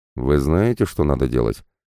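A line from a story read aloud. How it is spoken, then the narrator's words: Gloomy questioning. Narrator (Russian): мрачно уточнил парень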